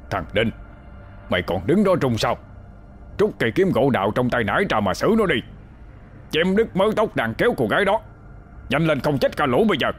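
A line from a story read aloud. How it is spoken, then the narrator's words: Roar through gritted teeth. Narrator (Vietnamese): Ông nghiến răng gầm lên một tiếng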